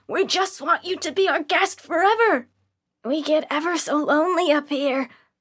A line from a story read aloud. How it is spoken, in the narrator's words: The man from the ticket booth yelling